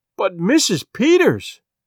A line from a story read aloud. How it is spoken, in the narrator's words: cried Mrs